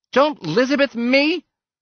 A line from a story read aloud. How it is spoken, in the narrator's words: shrieked